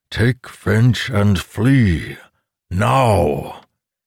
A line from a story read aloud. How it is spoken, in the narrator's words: that voice boomed in Amandal's mind